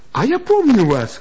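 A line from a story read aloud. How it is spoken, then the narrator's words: Cheerful. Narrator (Russian): весело сказала Элла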